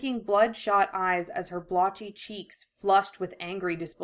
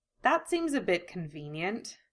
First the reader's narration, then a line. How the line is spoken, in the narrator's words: she sighed